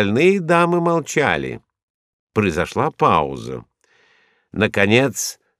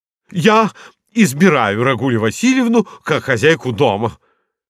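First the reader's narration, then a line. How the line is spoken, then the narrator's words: Shouting woman. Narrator (Russian): крикнула Пуделиха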